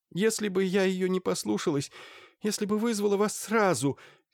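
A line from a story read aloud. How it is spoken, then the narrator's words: Sobbing. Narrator (Russian): всхлипывала Мария Ивановна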